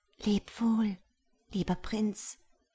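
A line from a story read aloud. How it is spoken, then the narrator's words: Whisper. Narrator (German): flüsterte sie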